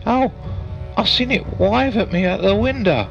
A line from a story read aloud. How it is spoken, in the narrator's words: wailed the boy